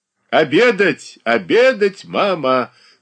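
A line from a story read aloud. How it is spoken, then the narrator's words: Cheerful shout. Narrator (Russian): кричал он весело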